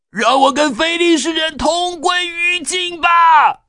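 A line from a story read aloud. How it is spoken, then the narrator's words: Loud shout. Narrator (Chinese): 大声喊着说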